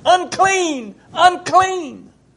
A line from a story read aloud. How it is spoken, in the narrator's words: people with leprosy, those that cried out